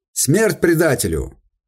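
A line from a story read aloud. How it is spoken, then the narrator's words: Unintelligible crowd shouting. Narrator (Russian): Кричали все, даже понять было невозможно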